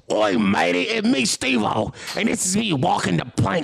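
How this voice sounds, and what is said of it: Pirate character voice. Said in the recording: “Pirate? ... pirate voice”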